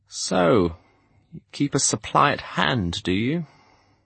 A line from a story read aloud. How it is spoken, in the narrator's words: His question came out as a croak